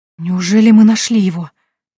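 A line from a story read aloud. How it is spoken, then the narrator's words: Breathless, heart pounding. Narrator (Russian): выдохнула, чувствуя, как бешено колотится сердце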